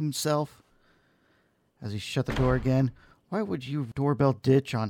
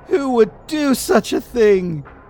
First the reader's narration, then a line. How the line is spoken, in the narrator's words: He wailed